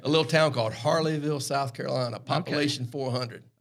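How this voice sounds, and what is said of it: Strong Southern US accent. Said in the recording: “you've got a different accent ... Got the super Southern accent ... A little low country”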